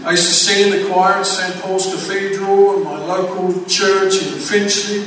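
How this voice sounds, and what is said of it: English accent. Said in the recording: “I grew up in England, as you most probably tell by the accent, that's where it comes from. It's England”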